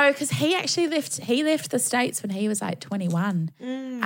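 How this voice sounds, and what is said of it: Usual voice. Nothing is said of it.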